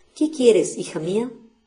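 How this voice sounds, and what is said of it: Very sweet, gentle voice. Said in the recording (Spanish): “le dijo con dulcísimo acento.”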